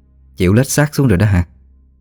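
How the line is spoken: Mocking stepmother. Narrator (Vietnamese): tiếng bà dì ghẻ mỉa mai

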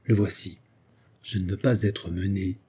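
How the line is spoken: Confidential, argumentative tone. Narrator (French): ajouta-t-il d'un ton confidentiel et argumentateur

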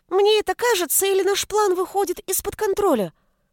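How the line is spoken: Frightened squeak. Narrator (Russian): Испуганно пискнул писец

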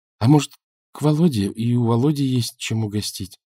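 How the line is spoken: Timid. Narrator (Russian): робко произнесла Наташа

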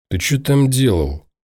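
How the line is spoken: Through gritted teeth. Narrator (Russian): сквозь зубы процедил Ворожцов

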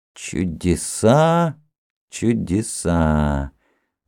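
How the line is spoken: Thoughtful repetition. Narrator (Russian): задумчиво повторил царевич

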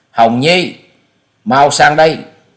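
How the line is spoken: Loud alarmed call. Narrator (Vietnamese): Sắc mặt của ông liền biến đổi, lớn tiếng gọi

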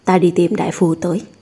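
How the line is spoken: Serious tone. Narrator (Vietnamese): Lục Yến nghiêm túc nói

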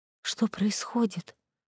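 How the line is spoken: Whisper, young woman. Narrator (Russian): прошептала девушка

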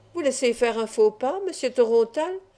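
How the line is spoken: Plain. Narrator (French): répondit Pointe-Pescade

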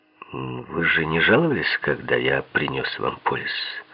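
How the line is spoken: Tired. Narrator (Russian): Устало заговорил Гудьер

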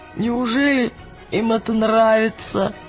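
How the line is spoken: Wheezing after vomiting. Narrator (Russian): просипел Роджер после того, как его обильно вырвало

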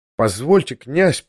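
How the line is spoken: Timid babbling. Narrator (Russian): пролепетал

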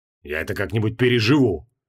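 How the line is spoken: Snapping retort. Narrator (Russian): огрызнулся Креол

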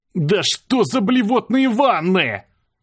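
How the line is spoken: Disgusted yell. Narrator (Russian): заорал я, судорожно скидывая с себя слой слизи

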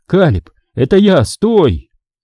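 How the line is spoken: Shout. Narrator (Russian): я закричал

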